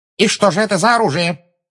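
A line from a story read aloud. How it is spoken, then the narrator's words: Sharp question. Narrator (Russian): резко спросила Амбридж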